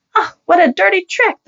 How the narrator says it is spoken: the lady cried out, her cheeks turning red

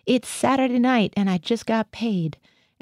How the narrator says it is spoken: I heard Gothia howl

